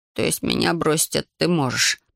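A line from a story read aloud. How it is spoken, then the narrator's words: Grumbled. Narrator (Russian): пробурчал он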